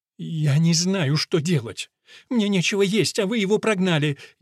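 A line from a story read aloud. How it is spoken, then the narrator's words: Girl sobbing. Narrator (Russian): девушка разрыдалась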